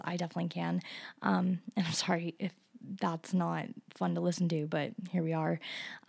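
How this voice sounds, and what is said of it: Sick-sounding, rough voice. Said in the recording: “I'm already feeling kind of sick ... I don't know if you can hear it in my voice.”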